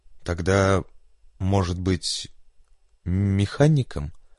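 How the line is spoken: Dejected, crestfallen question. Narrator (Russian): совсем упавшим голосом спросил Джек

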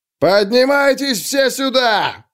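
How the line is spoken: Yelling. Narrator (Russian): заорал он

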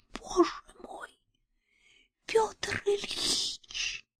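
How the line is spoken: Faint, breathless whisper. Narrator (Russian): Юлия обмирающе прошептала

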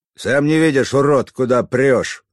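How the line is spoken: Barked back. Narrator (Russian): рявкнул в ответ

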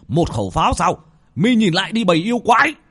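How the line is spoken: Wounded man shouting. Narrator (Vietnamese): Một vị pháp sư khắp người đầy máu tươi mà quát lên

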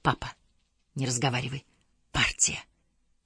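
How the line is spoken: Whisper. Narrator (Russian): прошептала

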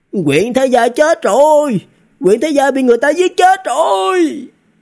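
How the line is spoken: Someone shouting. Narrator (Vietnamese): Trong thành có người hét lên

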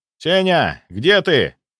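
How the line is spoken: Shouted. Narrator (Russian): прокричал я

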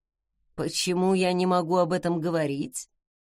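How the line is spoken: Quiet, through gritted teeth. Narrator (Russian): тихо сцедил он

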